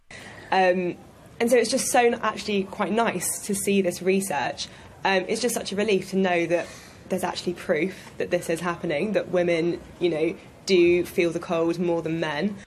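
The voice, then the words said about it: Congested voice from a cold. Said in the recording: “You can probably tell I've got a cold right now”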